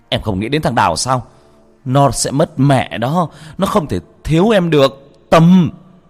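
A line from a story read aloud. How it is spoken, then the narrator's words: Desperate shout. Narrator (Vietnamese): Hưng hét lên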